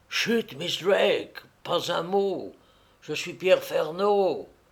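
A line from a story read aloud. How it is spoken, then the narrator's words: Whispered. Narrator (French): souffla le Canadien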